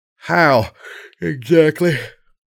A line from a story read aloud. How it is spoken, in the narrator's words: I punctuated with a yawn